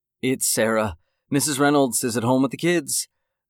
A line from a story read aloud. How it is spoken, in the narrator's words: Sarah said brightly, trying not to show her true feelings